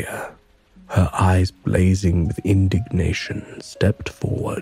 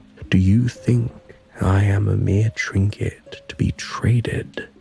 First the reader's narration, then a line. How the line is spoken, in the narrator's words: she demanded, her voice resonating in the hall